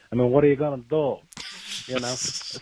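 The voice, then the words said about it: Bad put-on Italian accent. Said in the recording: “my terrible Italian accent”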